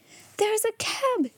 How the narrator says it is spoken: exclaimed Janet

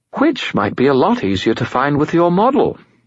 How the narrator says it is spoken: Bob said cheerfully

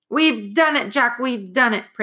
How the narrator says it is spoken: Praiseworthy roared

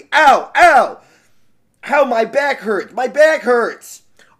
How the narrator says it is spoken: The poor monkey, his face was very long as he screamed angrily

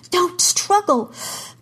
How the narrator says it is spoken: Kara gasped

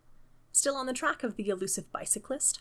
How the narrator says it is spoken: Holmes asked cheerfully

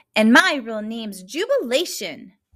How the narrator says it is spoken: blurted Juby

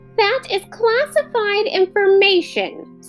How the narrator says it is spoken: snapped Gregor

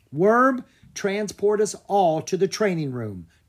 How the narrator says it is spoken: Drake cried

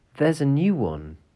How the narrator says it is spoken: Some little children, the youngest exclaimed

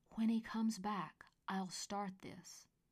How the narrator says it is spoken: whispered loudly

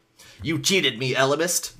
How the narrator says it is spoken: the Drode snapped

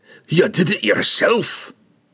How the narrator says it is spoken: he snarled at Regis

